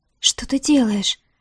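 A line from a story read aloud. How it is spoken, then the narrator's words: Breathless embarrassed girl. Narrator (Russian): выдохнула девушка мгновенно краснея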